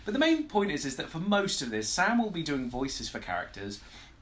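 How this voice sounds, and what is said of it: Posh, somewhat camp English accent. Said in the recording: “I may sound very old and educated ... It's an accent ... apparently I'm getting posher and posher. Swinging between very, very posh and very, very camp”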